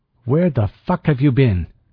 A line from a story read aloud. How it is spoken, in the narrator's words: Ortega snapped